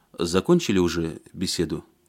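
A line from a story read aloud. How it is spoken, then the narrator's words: Plain. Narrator (Russian): спросил он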